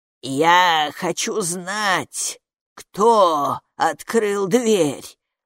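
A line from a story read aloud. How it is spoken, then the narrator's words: Rattling witch's voice. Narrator (Russian): Дребезжащим голосом продолжала ведьма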